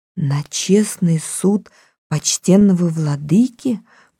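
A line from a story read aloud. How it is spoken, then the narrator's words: Whispered. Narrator (Russian): прошептала Салли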